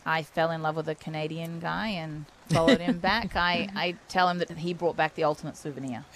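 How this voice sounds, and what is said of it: Australian accent. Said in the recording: “I notice that you have a bit of an accent... So you have come from Australia”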